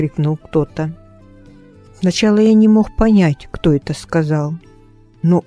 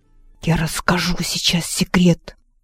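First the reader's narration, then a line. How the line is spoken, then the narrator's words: Boy, smiling whisper. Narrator (Russian): Мальчишка улыбнулся и прошептал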